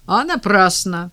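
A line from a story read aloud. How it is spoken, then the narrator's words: Good-natured chuckle. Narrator (Russian): добродушно хохотнул толстяк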